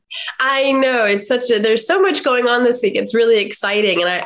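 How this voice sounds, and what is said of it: Congested voice from a cold. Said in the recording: “I'm recovering from a cold. So I think I sound terrible.”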